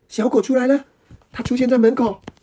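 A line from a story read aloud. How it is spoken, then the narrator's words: Excited cry. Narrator (Chinese): 兰丽兴奋的叫声，兰丽兴奋的叫喊声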